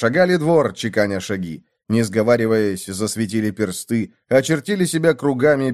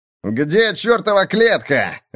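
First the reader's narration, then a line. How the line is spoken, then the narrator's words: Barked shout. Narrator (Russian): рявкнул Мартин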